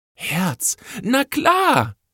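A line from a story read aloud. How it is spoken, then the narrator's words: Sudden call. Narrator (German): rief sie wie aus heiterem Himmel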